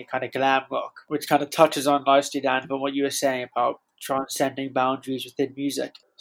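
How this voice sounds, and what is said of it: Congested, blocked-nose voice. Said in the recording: “I've got a bit of a cold, so my nose is a bit blocked. It makes speaking fun because I can't breathe at the same time.”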